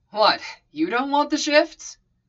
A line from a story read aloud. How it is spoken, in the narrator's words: Sam snorted